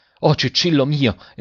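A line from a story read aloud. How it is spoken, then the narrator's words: Father exclaiming. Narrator (Italian): esclamò il padre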